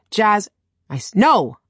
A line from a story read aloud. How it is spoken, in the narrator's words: I snapped